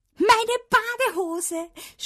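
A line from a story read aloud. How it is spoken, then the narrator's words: Delighted shout. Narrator (German): schrie ich entzückt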